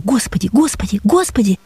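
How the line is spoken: Dry-lipped whisper. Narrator (Russian): шептали мои пересохшие губы

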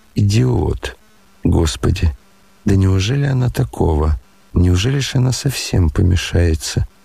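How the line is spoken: Angry whisper to herself. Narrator (Russian): Аглая вдруг гневно прошептала про себя

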